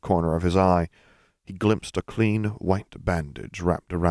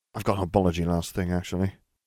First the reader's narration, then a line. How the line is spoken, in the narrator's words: Nev muttered